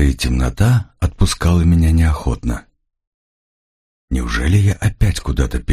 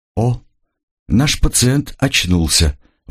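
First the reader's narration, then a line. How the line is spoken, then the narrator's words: Middle-aged man exclaiming. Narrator (Russian): воскликнул мужчина средних лет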